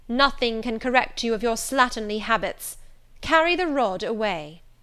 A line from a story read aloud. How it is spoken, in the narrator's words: exclaimed Miss Scatcherd